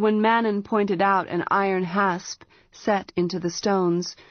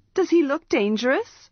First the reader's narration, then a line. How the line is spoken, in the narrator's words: Arha scoffed